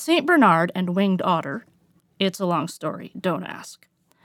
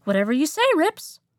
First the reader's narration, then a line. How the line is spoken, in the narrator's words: Brannon, the Winged Otter, a mythological creature, chirped